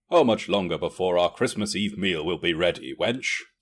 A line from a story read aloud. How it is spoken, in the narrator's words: asked